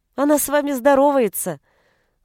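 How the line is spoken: Laughing. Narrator (Russian): засмеялась Беатриче

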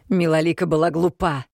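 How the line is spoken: Growled up close. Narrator (Russian): прорычала мне в лицо Роксана

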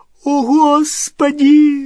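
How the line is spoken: Shriek. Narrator (Russian): взвизгнула Гермиона

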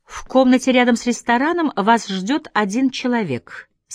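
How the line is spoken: Plain. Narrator (Russian): сказала Хун

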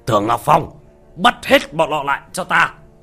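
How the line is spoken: Sudden shrill shout. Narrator (Vietnamese): Cấp trên của Tưởng Ngọc Phong đột nhiên quát lên một tiếng chói tai

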